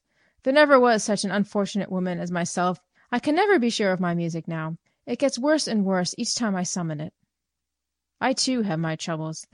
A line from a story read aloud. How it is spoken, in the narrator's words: the friend replied